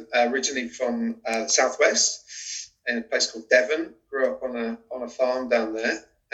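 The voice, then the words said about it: British accent. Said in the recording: “I'm British, as you can probably tell from my accent.”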